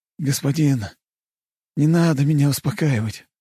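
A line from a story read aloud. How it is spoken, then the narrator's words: Sighing. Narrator (Russian): вздохнул он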